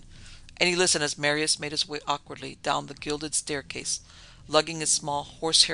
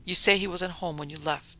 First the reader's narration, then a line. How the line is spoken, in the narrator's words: the man was whispering